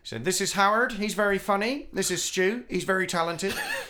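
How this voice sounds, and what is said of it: Impression of a colleague's voice. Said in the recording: “your impression of him ... it's not as good as your impression of him, but I'll do my little impression.”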